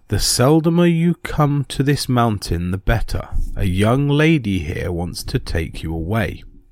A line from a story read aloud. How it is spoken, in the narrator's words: said to me in a sweet and silvery voice